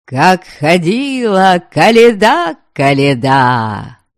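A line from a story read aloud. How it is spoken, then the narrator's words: Loud singing. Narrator (Russian): Громко запевал баяльник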